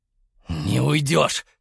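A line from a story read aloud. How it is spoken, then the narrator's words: Growled. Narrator (Russian): рыкнул Игнат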